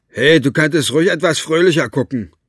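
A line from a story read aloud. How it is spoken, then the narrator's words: Called out. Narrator (German): rief Cockerell Basta zu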